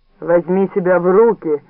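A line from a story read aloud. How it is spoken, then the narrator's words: Rude. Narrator (Russian): грубо сказала Милдред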